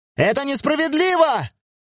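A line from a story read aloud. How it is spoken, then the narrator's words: Old man wailing. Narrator (Russian): завопил старик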